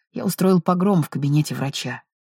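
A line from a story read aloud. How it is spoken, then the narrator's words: Whisper. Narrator (Russian): прошептал Питер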